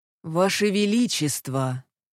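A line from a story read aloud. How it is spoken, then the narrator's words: Dry, unsympathetic. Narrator (Russian): Сухо, без тени сочувствия, произнес главный имперский лекарь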